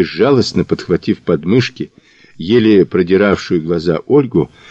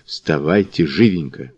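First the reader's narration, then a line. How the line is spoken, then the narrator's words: Hurried whisper. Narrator (Russian): шепотом поторопив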